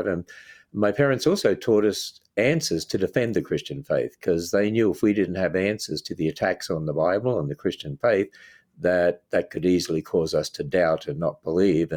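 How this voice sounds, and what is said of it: Australian accent. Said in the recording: “hopefully you can tell from my accent, I'm from Australia”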